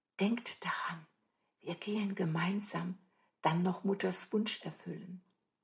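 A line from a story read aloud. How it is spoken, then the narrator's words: Whispering. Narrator (German): flüsterte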